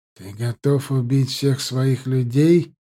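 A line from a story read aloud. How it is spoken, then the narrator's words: Grim question. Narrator (Russian): мрачно спросил Ахмат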